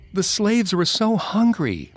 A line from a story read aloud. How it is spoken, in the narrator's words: the little girls cried